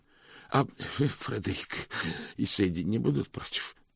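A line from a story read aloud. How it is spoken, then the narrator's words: Hoarse croak. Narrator (Russian): прохрипел Мокриц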